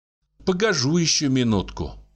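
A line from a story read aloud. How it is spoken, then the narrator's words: Sighing. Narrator (Russian): вздохнула Агафья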